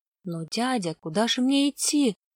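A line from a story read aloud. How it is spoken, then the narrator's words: Child's mumble. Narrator (Russian): промямлил мальчик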